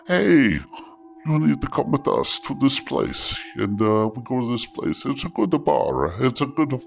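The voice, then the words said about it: Put-on Italian accent. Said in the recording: “I'm not sure why I sound Italian. I'm just doing an accent.”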